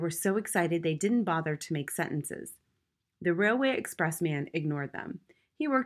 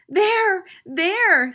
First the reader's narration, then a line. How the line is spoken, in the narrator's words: screamed Mrs